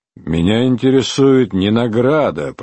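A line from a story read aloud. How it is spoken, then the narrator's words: Grumbling. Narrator (Russian): проворчал Чирне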